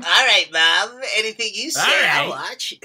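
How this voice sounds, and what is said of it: Cartoon character voice impression. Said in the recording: “Very Milhouse. ... doing a Milhouse impression.”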